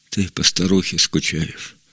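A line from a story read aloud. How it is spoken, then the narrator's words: Plain. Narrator (Russian): сказала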